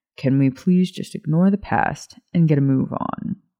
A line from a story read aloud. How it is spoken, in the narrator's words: He growled under his breath